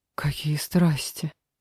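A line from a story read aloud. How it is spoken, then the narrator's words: Whisper. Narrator (Russian): прошептала Лера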